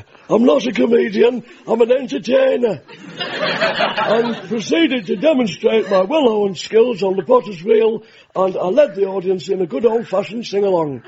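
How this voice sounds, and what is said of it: Impression of Johnny Vegas. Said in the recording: “shall I do your voice? ... Johnny Vegas”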